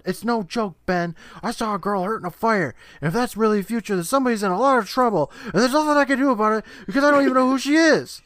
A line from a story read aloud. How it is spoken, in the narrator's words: Justin yelling